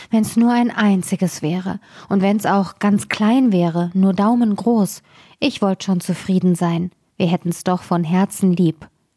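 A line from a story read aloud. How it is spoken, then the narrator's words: Sighing reply. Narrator (German): antwortete die Frau und seufzte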